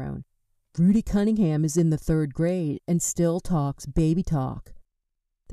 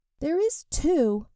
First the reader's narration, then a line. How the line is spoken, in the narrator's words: cried Rudy, his passion stronger than his fear